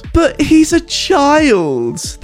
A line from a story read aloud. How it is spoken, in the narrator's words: squealed